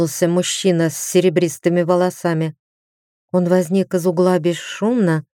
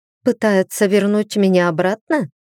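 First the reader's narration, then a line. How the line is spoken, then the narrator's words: Girl's caustic snort. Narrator (Russian): едко хмыкнула девушка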